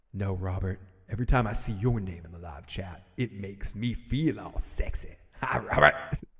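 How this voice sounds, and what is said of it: Put-on sexy voice, not convincing. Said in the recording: “Is that my sexy voice? Is that your sexy voice? Yeah, it's my sexy voice. That's not a very good sexy voice”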